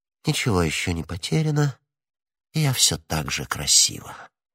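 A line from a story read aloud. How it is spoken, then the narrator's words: Self-satisfied whisper. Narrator (Russian): вполне удовлетворенная собой, она прошептала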